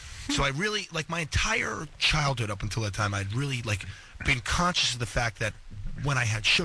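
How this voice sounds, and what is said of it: Usual voice. Nothing is said of it.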